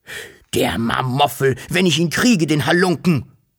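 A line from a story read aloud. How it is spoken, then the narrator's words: Furious thundering father. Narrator (German): donnerte der Wawuschelvater außer sich vor Zorn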